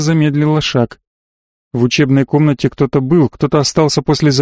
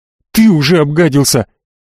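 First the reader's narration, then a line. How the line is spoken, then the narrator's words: Shouted. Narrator (Russian): выкрикнула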